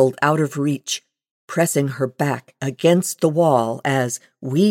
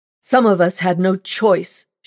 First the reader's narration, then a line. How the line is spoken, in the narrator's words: she cried, her voice loud and harsh